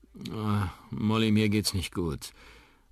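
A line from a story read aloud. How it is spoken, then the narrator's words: Sighing. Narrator (German): seufzt Onkel Danny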